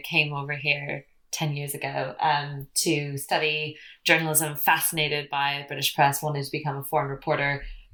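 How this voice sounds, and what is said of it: American accent, not British. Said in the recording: “this accent is not native British. Originally from California”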